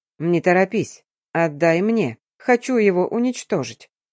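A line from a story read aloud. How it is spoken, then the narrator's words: Calm. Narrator (Russian): спокойно произнес папа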